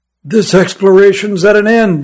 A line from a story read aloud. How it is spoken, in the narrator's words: he moaned